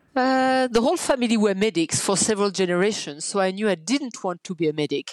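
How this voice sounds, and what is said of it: Strong French accent. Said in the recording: “I've got a strong French accent”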